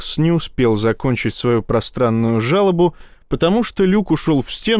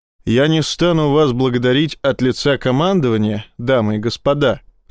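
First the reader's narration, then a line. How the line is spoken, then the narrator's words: Plain. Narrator (Russian): сказал Рашин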